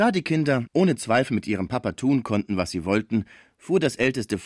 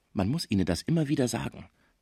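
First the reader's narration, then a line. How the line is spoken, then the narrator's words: Quiet explanation. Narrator (German): erklärte er Schmucke leise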